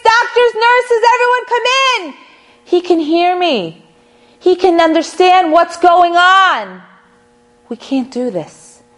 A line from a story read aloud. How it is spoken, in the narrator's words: he screams